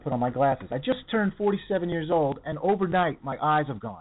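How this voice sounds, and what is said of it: Usual voice. Nothing is said of it.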